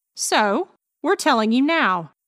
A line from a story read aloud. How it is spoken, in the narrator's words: snapped Gabby